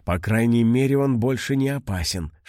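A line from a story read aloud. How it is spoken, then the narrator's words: Whisper. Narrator (Russian): шепнула Вико Мона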